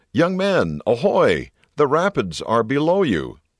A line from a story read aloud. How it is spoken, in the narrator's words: A man on the shore, sensing the danger, called out